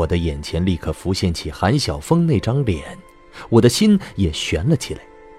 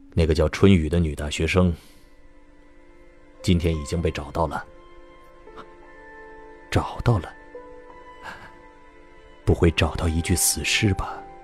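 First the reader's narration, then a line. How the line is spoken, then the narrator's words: Flat, calm after pause. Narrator (Chinese): 叶宵停顿许久，才淡淡的说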